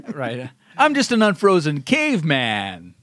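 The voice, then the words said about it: Comedic caveman lawyer character voice. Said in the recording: “I don't think we've gone two podcasts without you doing Frozen Caveman Lawyer ... Unfrozen Caveman Lawyer”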